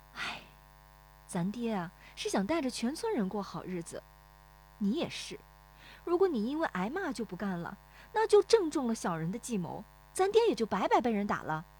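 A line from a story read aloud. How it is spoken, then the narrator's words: Sighing. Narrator (Chinese): 乔红梅叹口气说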